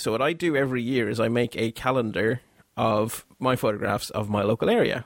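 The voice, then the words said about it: Belgian accent. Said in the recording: “although I live in Ireland and have lived here for a very long time, as you can tell by the accent, I'm not actually from Ireland. I'm actually from Belgium.”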